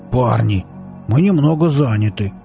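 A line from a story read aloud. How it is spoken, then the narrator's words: Displeased grumbling. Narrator (Russian): Оба недовольно заворчали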